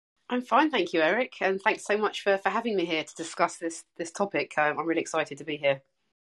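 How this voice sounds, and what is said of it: English accent. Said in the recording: “I'm English, uh, as you can tell by my accent”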